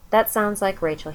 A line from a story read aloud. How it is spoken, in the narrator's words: he said